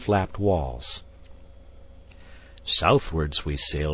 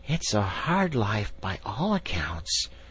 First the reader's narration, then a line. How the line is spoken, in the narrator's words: murmured the rat, sunk in deep thought